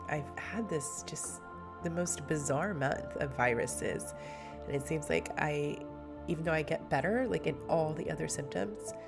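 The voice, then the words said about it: Strained, weakened voice from illness. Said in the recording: “you can hear my voice is not where it should be ... my voice has really, really struggled”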